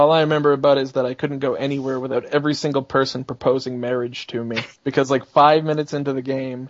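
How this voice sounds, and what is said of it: Usual voice. Nothing is said of it.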